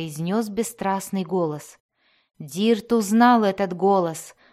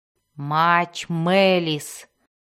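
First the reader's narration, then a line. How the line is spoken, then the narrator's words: Growling. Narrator (Russian): прорычала она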